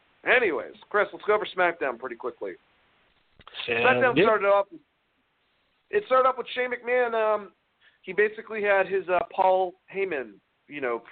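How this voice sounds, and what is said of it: Raspy strained voice. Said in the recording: “they destroy my fucking throat. Holy shit. I'm raspy now.”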